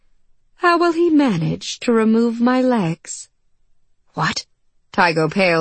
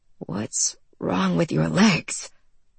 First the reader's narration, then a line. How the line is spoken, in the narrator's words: Tygo croaked at last